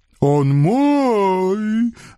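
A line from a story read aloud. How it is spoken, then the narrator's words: Offended wail, vampire. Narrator (Russian): обиженно взвыл вампир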